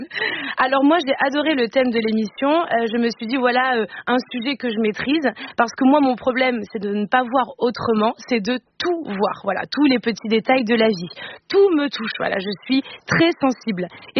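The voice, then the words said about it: Put-on Marseille accent. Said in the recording (French): “j'essaie de vous imiter ... Avec l'accent de Marseille ... Alors que vous n'êtes pas de Marseille ... et que vous n'avez pas d'accent ... je ne ferais pas des accents bancals”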